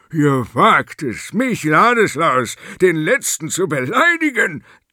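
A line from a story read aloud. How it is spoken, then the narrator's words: Thundering voice. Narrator (German): donnerte er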